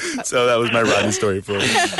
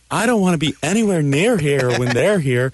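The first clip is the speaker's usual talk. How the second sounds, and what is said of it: Impression of Rodney's voice. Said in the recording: “you have to do the Rodney voice”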